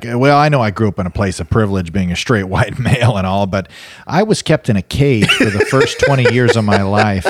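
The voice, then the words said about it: Sarcastic mocking imitation. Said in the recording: “I'm being sarcastic,”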